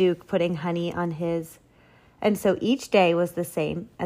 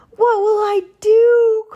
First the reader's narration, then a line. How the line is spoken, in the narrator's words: cried Walter